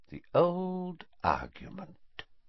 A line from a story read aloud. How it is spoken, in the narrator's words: he said softly